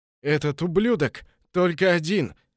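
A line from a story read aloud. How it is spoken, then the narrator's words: Forced out through coughing. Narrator (Russian): сквозь кашель выдавил один из них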